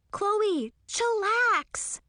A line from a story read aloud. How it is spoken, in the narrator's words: I shouted